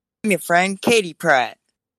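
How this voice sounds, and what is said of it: Convincing impression of a friend's voice. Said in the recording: “that was an amazing Katie version... practically Katie. I couldn't tell... do a Katie impression... It was a perfect Katie impression.”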